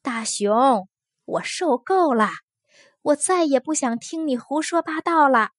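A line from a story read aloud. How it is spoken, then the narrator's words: Furious loud shouting. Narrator (Chinese): 风儿气坏了……它大声叫起来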